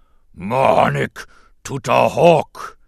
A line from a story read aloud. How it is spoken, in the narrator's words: Jabba boomed